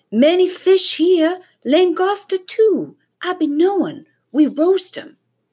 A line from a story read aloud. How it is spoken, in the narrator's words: Timothy shouted up from the water